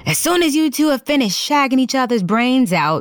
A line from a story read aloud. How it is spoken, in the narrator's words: he yelled